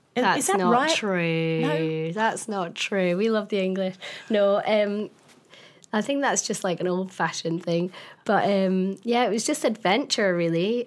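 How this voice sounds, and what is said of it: Scottish accent. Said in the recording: “I love your accent ... I'm from a wee town in the middle of nowhere, really, in Scotland ... everybody loves the Scottish accent”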